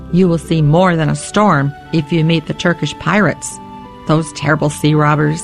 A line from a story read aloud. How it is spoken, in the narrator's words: the sailor said